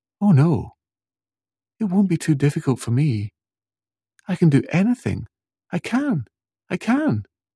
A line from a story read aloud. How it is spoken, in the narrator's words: Jessica jumped up and down excitedly and said